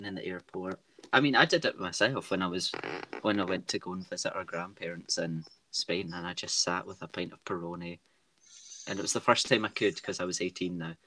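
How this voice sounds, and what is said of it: Scottish accent. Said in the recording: “we are from Scotland, a wee town just outside of Glasgow ... our accents”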